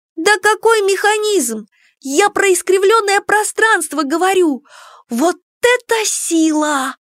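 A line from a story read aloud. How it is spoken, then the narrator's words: Exclaimed. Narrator (Russian): воскликнула подруга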